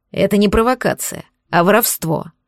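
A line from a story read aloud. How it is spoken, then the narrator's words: Grumbled. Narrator (Russian): пробурчал Дубов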